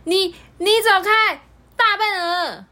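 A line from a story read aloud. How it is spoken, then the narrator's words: Yelling. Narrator (Chinese): 这么叫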